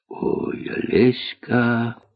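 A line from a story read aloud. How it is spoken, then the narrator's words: Whisper. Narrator (Russian): прошептал Остап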